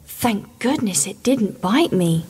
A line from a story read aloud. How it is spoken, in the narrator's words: she added quietly